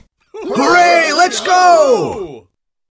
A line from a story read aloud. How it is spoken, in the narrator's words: Everyone shouted